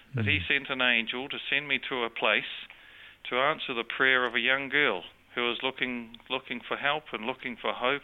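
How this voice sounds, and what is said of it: New Zealand accent. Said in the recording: “You speak with an accent... I have a New Zealand accent”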